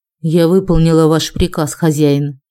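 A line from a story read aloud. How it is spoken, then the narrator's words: Detached, as loud as possible. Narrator (Russian): Я совершенно отстраненным голосом как можно громче произнесла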